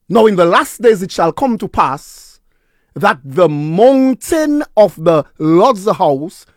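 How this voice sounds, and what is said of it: Slow, deliberate reading. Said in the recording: “read that slowly”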